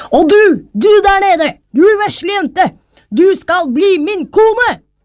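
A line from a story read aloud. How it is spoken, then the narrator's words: King calling out. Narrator (Norwegian): da kongen fikk øye på henne ropte han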